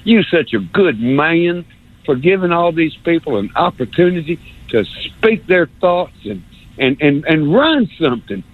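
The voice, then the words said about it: Put-on North Alabama accent. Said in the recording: “I love this North Alabama accent thing. I'm going to do it again.”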